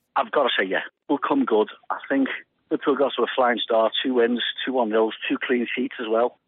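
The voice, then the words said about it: Croaky, hoarse voice. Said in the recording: “my voice is a bit croaky at the moment”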